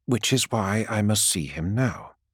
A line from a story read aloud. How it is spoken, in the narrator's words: says Sanguinius